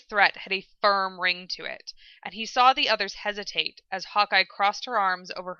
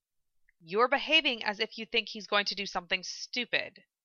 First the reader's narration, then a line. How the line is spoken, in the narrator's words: she said quietly